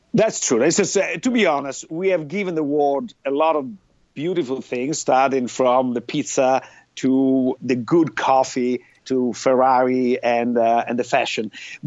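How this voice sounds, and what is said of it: Italian accent. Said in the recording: “you're from Italy. That's pretty clear from your accent.”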